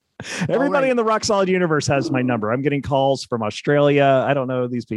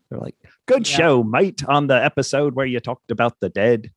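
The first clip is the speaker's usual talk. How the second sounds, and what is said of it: Put-on Australian accent. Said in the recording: “that accent you just tried ... the Australian accent”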